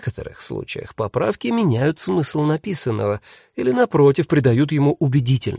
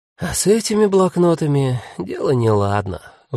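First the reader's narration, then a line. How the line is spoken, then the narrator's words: Sigh. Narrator (Russian): вздохнула Агата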